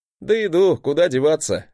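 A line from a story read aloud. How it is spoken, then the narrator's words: Relieved chuckle. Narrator (Russian): хохотнул я, радуясь, что в этот раз мой брат вернулся невредимым и прошедшим испытание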